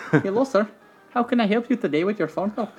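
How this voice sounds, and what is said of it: Put-on Indian accent, botched. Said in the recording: “I was trying to do those Indian telemarketers ... Yeah, I fucked that up.”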